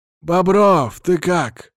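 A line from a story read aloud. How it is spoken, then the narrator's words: Wheezed. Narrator (Russian): просипел Владимир Ильич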